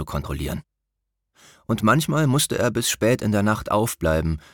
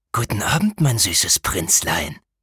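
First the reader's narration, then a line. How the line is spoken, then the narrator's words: Hissed. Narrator (German): zischte der Schatten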